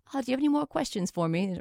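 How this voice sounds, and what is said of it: Poor imitation Australian accent. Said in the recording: “I'm saying a horrible Australian accent.”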